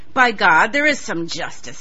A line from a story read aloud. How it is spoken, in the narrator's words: snarled